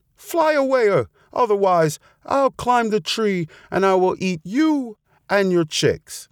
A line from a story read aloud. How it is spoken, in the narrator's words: shouted the fox